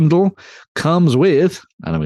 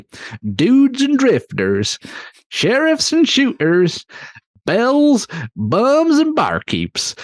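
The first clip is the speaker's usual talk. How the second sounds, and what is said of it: Attempted American accent, sounding West Country. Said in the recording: “I'm going to go into an American accent now and annoy everybody ... That's a wee bit West Country, son.”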